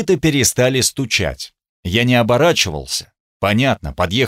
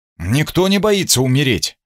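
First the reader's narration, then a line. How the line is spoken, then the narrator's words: Offended objection. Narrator (Russian): возразил Гунтер обиженно, задетый намеком о какой-то особой храбрости рыцарей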